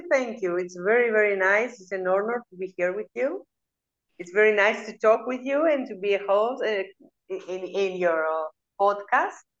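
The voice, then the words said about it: Beautiful foreign accent. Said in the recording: “So everyone can hear their beautiful accent.”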